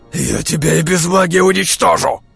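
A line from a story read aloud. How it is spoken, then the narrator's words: Threatening, through gritted teeth. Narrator (Russian): Процедил он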